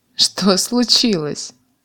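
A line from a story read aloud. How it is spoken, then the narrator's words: Man laughing. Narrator (Russian): засмеялся мужик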